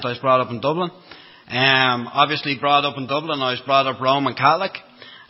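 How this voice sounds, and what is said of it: Irish Dublin accent. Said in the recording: “brought up in Dublin, as you can hear from the accent.”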